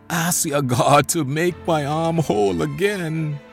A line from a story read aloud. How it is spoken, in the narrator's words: begged